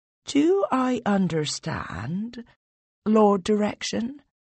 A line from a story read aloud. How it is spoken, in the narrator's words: you said calmly and smoothly